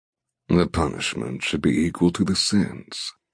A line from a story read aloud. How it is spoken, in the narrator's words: he murmurs